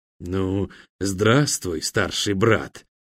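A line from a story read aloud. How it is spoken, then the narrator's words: Hoarse, from behind. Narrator (Russian): хрипло донеслось из-за спины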